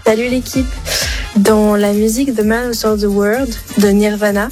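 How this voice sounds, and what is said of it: Showy English accent. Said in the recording (French): “comment elle se la pète avec son accent ... très bon accent anglais”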